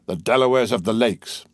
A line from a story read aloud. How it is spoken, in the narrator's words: The darkness of the impending cloud which precedes a burst of thunder was not blacker than the brow as he exclaimed